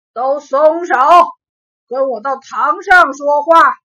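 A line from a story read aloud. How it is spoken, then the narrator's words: Stern, loud command. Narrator (Chinese): 县太爷大声喝道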